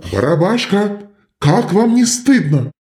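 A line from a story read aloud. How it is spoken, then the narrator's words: Shouting. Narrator (Russian): кричал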